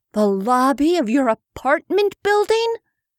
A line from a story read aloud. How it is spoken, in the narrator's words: Rebecca asked with a gasp